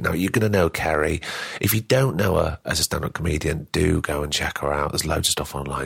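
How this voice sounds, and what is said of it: Croaky, hoarse voice. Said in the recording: “excuse my voice. I'm a bit croaky. I was getting over a cold ... forgive the croakiness”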